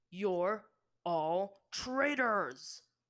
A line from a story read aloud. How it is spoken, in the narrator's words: Bato bellowed at the water sages